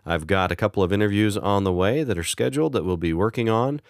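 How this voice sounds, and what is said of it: Voice sounds unwell, not recovered. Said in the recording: “I'm hoping my voice will improve. As you can probably tell, I've been a little under the weather. My voice hasn't quite recovered”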